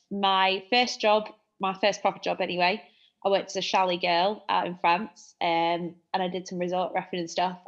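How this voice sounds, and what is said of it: Manchester English accent. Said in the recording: “if you can't tell by my accent, Manchester”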